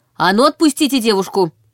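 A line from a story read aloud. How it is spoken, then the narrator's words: Sharp shout. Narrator (Russian): прикрикнула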